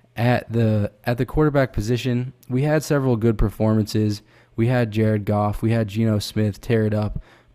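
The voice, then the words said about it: Raspy, congested voice. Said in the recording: “my voice is a little bit raspy today, dealing with some sinus infections”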